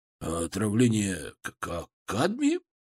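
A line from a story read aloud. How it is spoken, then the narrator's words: Hoarse, uncertain voice. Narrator (Russian): Его голос был хриплым, неуверенным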